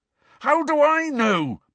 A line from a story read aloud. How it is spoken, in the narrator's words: bellowed Harry